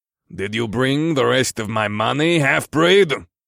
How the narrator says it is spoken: Ulam spat

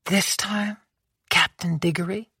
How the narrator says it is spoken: she said softly

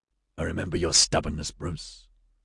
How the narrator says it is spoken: Scott rasped

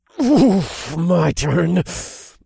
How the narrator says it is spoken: I hissed through clenched teeth

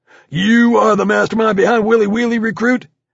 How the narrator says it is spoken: Ruiz suddenly lunged forward directly into my face and bellowed

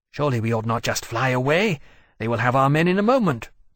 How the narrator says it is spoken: Temeraire said urgently over his shoulder to Lawrence

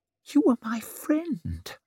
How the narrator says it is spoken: whispered Savine

